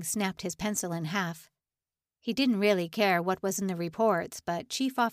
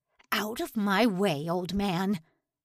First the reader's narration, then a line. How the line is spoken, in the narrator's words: Lang snarled